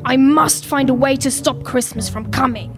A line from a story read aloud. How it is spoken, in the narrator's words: he growled